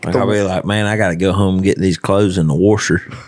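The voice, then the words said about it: Exaggerated Southern redneck accent. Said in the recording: “messing around like with my accent and like acting more redneck than I really am”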